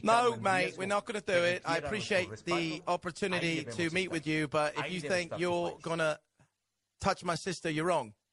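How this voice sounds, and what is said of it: Put-on British accent. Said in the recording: “We'll do it with a British accent.”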